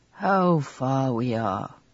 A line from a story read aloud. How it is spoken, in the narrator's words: sighed